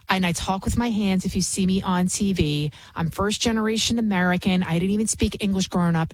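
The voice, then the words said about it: Bronx accent. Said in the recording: “I can be from the Bronx. Obviously, you can hear it in my accent, which I've been trying to get rid of”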